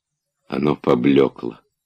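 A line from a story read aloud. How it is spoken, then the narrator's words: Sad reply. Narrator (Russian): печально отвечал он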